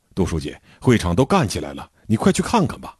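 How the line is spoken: Hurried, urgent. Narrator (Chinese): 社员小宋急急忙忙地跑来找我

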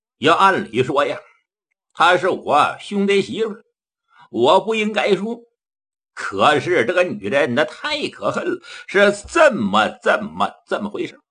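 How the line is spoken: Sighing. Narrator (Chinese): 张海芳听到这叹了口气

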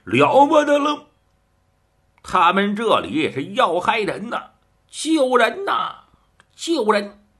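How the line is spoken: Strained shouting. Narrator (Chinese): 白月堂撑着喊叫

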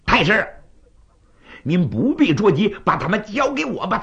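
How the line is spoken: Shout. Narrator (Chinese): 在他背后有一人喊了一声

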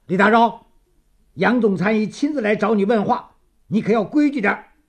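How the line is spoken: Loud. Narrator (Chinese): 典狱长大声地说

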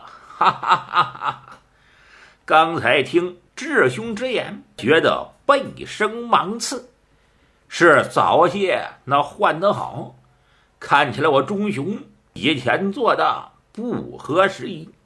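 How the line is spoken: Laughing. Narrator (Chinese): 忠雄笑了

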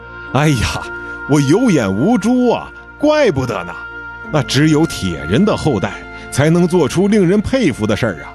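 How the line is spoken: Loud shout. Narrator (Chinese): 出租车司机大声地喊着

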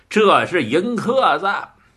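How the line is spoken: Laughing. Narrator (Chinese): 王头看着智化笑了

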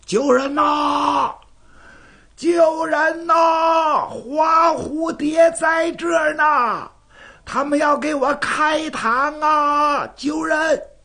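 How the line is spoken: Bellowing at full voice. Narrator (Chinese): 扯着大嗓子喊开了

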